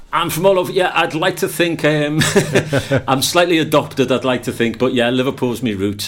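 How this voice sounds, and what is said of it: Liverpudlian accent. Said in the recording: “You have got a Liverpudlian accent.”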